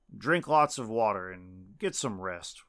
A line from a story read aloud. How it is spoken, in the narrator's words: Weinberg said